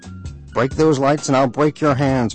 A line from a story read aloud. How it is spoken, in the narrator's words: my father shouted